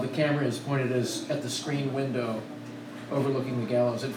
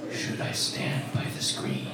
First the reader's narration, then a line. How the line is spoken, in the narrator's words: A disembodied voice whispers